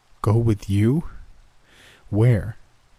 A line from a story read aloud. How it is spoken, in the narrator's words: A longer, nastier chuckle